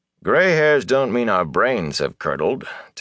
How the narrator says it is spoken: Tam said dryly

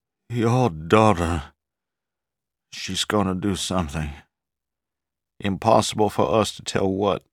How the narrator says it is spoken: Moutreau said hoarsely

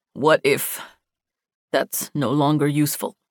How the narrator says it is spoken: Tahir asked, his voice tight

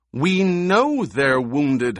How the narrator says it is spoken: Howitt snapped

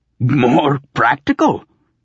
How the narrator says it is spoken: sputtered

